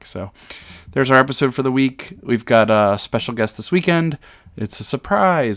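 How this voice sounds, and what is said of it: Tired, worn-out voice. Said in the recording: “you can probably hear it in my voice, I can feel it in my voice ... I did three conventions in 5 weeks”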